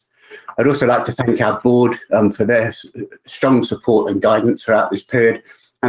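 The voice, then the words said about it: Hoarse, fading voice. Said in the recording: “unfortunately I'm losing my voice”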